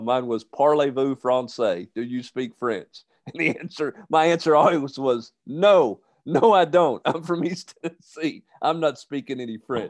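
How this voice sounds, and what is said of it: Southern twang put on. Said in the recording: “You literally just had twang when you said parlez-vous français ... I was trying to channel my inner Brian Kelly”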